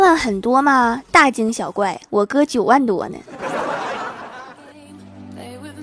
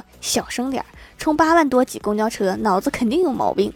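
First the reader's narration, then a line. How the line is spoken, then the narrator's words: Soft whisper in ear. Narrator (Chinese): 另一个学生在耳边轻声说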